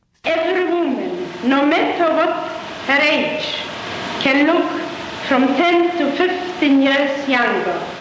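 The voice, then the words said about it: Polish-accented English. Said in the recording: “that Polish lilt”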